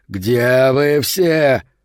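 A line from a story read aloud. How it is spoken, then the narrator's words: Yelling. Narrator (Russian): завопил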